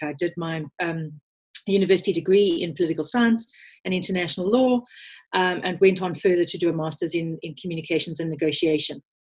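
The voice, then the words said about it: South African accent. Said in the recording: “You can probably hear from my accent that I'm South African born”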